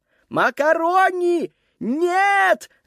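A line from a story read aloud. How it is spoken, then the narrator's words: Screaming. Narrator (Russian): завопил он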